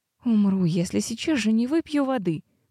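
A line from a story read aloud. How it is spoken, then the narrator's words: Moaning. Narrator (Russian): простонала она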